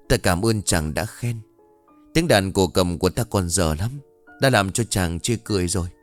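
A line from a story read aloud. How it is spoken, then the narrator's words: Shy smiling reply. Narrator (Vietnamese): Cô Liễu mỉm cười, khẽ e lệ rồi đáp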